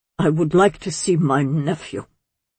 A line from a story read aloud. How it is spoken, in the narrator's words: Garland said, a tiny crack in his imperious voice